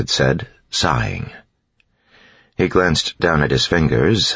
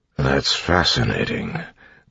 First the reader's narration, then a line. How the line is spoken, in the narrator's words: Clubs mumbled